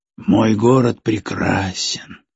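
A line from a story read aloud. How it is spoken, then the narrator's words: Sigh. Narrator (Russian): вздохнул Дюк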